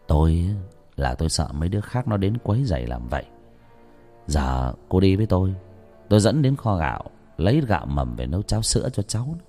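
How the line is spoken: Soft, gentle voice. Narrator (Vietnamese): ông đi tới nói với người đàn bà, giọng lại trở nên nhỏ nhẹ

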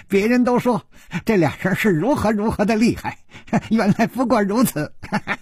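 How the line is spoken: Giggling speech. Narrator (Chinese): 一个人咯咯地笑着说

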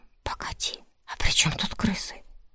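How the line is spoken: Whispered question. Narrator (Russian): спросил Данила шепотом, чтобы не перебивать

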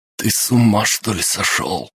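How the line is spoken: Strained pained wheeze. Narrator (Russian): Болезненно морщась сдавленным голосом просипел Пеллингтон

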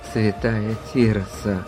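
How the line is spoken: Whisper to oneself. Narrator (Russian): прошептал он сам себе

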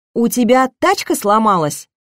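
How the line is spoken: Shout. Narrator (Russian): крикнула

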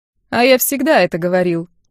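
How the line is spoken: Mocking reply. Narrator (Russian): насмешливо отозвался Йохан

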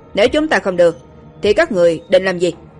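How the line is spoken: Burly man, angry. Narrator (Vietnamese): Người đàn ông khá là vạm vỡ đứng bên cạnh người thanh niên đeo kính tức giận nói

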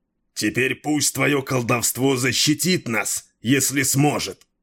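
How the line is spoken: Growl. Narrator (Russian): прорычал Дрибек

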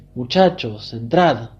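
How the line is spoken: Calling out from afar. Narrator (Spanish): exclamaba llamándolos desde lejos

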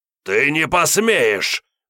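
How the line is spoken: Enraged growl. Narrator (Russian): прорычал взбешенный охотник

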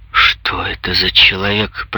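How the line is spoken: Muttering through teeth. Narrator (Russian): пробормотал сквозь зубы

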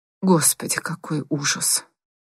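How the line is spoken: Muttered. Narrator (Russian): пробормотала она

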